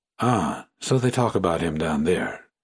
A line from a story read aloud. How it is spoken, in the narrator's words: he murmured to himself